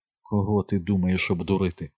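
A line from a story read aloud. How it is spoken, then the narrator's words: Calm question. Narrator (Ukrainian): спитала Кей, говорячи так само спокійно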